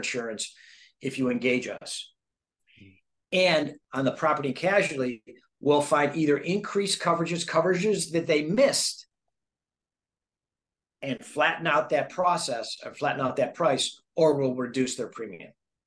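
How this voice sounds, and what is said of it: Radio-style broadcaster voice. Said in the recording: “you got that radio voice going on ... I can picture you on the radio”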